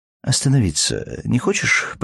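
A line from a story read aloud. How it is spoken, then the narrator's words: Almost calm question. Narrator (Russian): почти спокойно спросил Матвей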